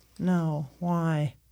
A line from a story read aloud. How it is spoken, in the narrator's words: mumble thinly